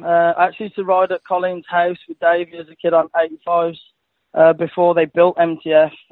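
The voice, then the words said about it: English accent. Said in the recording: “you got a bit of an accent going on ... I'm from England”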